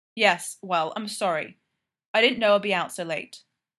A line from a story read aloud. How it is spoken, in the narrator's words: Fraser said sharply